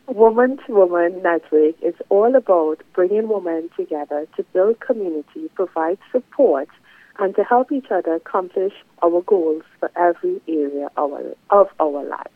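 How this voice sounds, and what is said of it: Trinidad and Tobago accent. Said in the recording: “this lovely accent is originally from Trinidad and Tobago”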